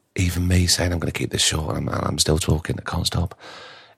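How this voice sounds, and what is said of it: Croaky, tired voice. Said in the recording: “voice is going right now ... You can tell I'm tired ... my voice is so croaky”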